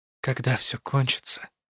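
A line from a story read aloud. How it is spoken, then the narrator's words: Quiet reply. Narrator (Russian): тихо ответила я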